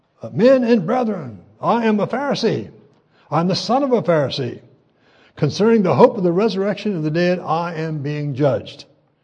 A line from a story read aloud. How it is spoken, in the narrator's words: he cried out to the council